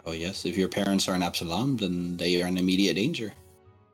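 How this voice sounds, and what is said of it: Put-on character accent. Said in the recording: “Are you sure you're not from Diabel? Your accent is uncanny, and I find it fantastic.”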